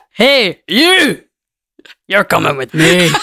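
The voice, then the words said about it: Shrek character voice impression. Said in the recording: “give us an impression ... Of Shrek ... good Shrek impression”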